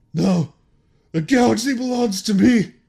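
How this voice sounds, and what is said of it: Imitates another person's voice. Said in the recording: “my best Hayden Christensen impression”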